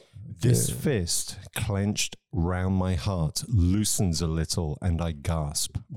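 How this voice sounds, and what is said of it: Intense dramatic reading voice. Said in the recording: “I'm gonna try and do this in an intense voice.”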